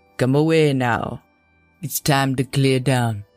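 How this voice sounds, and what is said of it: Deep voice, heavy islander accent. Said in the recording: “A deep voice, heavy with an islander's accent,”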